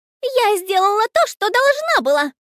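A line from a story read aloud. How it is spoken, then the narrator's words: Shrieking. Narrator (Russian): визжала она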